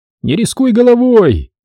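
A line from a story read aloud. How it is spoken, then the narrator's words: Shouted after them. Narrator (Russian): крикнул Дэн им вслед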